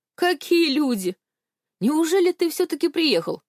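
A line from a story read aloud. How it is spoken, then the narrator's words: Exclaiming. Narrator (Russian): воскликнул Степка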